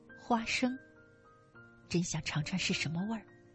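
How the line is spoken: Murmuring mother. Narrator (Chinese): 母亲喃喃道

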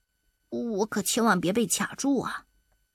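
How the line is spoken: Quiet muttering. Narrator (Chinese): 大灰兔小声地嘀咕着

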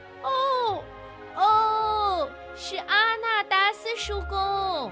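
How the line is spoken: Loud shout. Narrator (Chinese): 他大叫

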